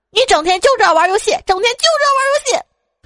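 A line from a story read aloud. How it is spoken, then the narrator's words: Woman shouting. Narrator (Chinese): 总是听见那女的喊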